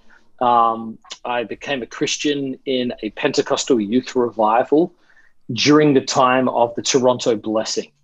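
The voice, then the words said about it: Australian accent. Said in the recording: “give us where the accent's coming from ... I'm originally from Australia. I grew up there, lived there till I was 20.”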